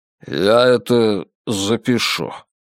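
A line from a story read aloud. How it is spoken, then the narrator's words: Muttered. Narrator (Russian): пробормотал он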